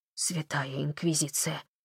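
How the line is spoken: Whisper. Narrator (Russian): прошептал он

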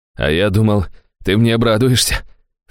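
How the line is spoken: Snort. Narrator (Russian): фыркнул он

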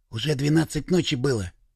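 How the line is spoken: Hoarse whisper. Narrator (Russian): севшим голосом прошептал Сережка

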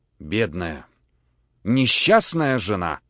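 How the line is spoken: Sighing. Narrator (Russian): вздохнула полковница

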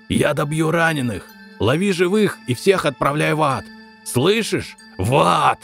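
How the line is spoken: Yelling. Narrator (Russian): так орал

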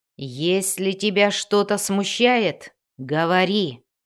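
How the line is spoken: Growled. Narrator (Russian): прорычал он

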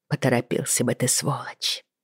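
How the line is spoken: Muttered. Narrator (Russian): пробормотала я

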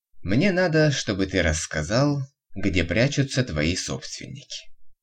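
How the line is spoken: Calm. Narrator (Russian): все так же спокойно ответил Виктор

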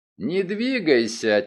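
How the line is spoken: Quiet. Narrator (Russian): тихо произнес я

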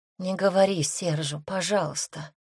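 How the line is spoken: Very quiet girl's plea. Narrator (Russian): тихо-тихо попросила девушка

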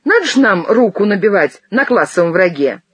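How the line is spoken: Drunken laughter. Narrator (Russian): И пьяно захохотала

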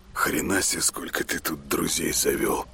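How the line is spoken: Muttered. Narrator (Russian): пробормотал он

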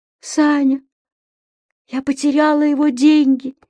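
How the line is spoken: Helpless whisper. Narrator (Russian): беспомощно прошептала она

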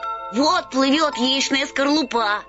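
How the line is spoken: Boys shouting. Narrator (Russian): закричали мальчишки

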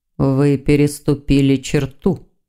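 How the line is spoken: Quiet demon voice. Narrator (Russian): тихо проговорил демон

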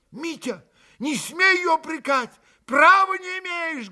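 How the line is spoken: Heated shout. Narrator (Russian): Горячо крикнул на брата Алеша

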